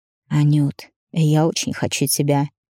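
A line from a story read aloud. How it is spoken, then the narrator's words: Hoarse whisper close to ear. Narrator (Russian): раздается хриплый шепот над моим ухом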